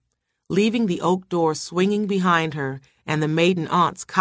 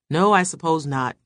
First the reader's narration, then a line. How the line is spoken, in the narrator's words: he answered, but his voice held no conviction